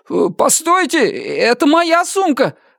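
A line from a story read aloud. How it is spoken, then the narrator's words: Shout. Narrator (Russian): закричал он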